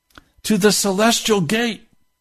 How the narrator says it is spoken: He yelled back to them

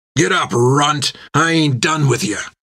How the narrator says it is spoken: snarled Bill

